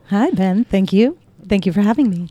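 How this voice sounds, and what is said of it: Polished radio announcer voice. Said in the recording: “What a great radio voice.”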